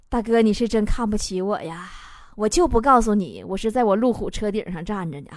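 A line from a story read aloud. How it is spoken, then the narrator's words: Muttering. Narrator (Chinese): 站在水里那哥们儿嘴里嘟囔说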